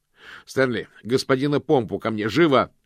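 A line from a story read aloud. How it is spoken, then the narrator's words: Muffled shout. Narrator (Russian): крикнул мокрец, но колпак на голове был слишком плотным и тесным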